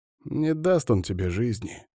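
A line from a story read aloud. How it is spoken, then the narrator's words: Friend sighing. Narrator (Russian): вздохнул друг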